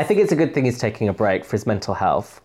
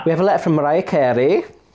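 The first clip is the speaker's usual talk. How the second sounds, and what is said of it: Put-on Welsh accent. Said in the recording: “I don't know why I said it in a Welsh accent.”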